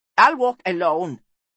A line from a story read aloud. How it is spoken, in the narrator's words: snapped the Anir